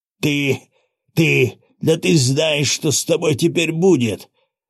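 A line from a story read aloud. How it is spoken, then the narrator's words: Yelling in pain. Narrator (Russian): сжимая поломанную ногу, заорал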